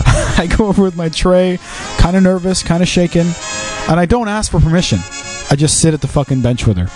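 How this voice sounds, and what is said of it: Canadian accent. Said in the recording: “You got a Canadian accent. ... I got an accent.”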